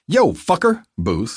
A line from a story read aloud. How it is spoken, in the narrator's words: my brother snapped